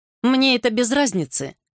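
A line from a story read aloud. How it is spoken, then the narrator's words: Snorting. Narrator (Russian): фыркнул Норфолк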